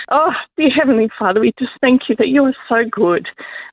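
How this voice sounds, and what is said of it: Teary, emotional voice while praying. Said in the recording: “excuse me if it's a bit teary, if it's a bit real”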